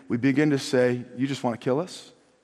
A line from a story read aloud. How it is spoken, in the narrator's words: We murmur